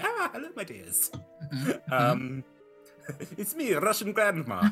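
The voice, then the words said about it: Put-on Eastern European accent. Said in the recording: “this weird Eastern European accent”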